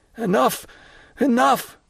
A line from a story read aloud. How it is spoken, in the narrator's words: cried Morel, almost overpowered